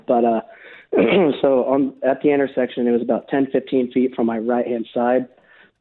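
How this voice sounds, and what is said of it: Hoarse, worn-out voice. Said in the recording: “Sorry for my voice being gone from the Super Bowl.”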